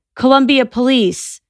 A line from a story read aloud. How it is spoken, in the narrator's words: Donjon shouted